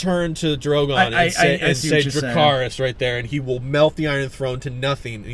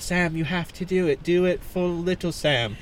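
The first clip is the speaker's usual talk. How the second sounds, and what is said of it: Imitated voice of a female character. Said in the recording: “did his Gilly voice”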